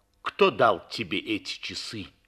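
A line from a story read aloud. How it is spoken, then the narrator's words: Stern question. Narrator (Russian): спросила она строго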